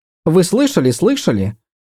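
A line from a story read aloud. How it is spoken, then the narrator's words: Impatient babble. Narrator (Russian): нетерпеливо пролепетала она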